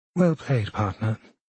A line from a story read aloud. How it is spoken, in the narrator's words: sometimes more seriously, more anxiously